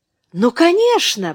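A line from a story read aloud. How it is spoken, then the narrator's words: Exclamation. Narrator (Russian): воскликнул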